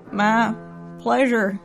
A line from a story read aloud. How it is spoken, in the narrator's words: choked